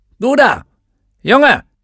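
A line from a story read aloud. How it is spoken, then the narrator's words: Called out. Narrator (German): rief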